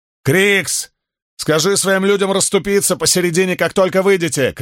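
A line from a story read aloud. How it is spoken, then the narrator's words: Shout. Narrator (Russian): крикнул Спартак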